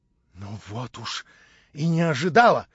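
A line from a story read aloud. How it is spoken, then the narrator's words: Exclaimed in surprise. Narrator (Russian): вскрикнула Анна Андреевна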